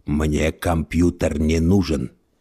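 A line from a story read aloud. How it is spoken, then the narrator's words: Mumbled. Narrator (Russian): пробормотал он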